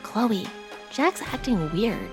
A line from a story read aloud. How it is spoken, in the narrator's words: she whispered